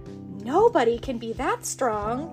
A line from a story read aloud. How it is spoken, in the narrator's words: Tommy gasped